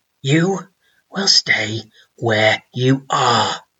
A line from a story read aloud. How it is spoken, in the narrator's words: he rasped